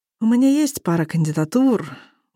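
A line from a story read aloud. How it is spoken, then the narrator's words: Gloomy drawl. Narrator (Russian): уныло тяну я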